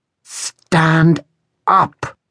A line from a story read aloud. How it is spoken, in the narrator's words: hissed Rosa